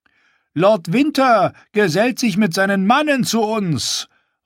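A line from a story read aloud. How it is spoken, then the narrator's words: Guard calling jokingly. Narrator (German): rief einer der Wächter vor der großen Halle im Scherz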